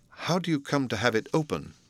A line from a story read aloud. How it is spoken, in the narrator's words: Utterson, and then sharply